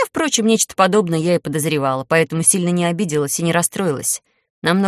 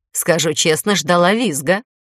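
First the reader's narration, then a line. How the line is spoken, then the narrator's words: Laughing. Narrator (Russian): хохотнула Эльба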